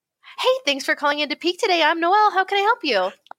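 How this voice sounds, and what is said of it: Chirpy customer service voice. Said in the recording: “customer service voice ... you're basically just like the world's most annoying anime character”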